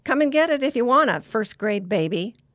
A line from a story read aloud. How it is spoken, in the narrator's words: Doug shouted